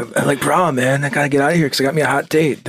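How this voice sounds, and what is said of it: Put-on Californian surfer accent. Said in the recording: “I feel like he should have had a Californian accent.”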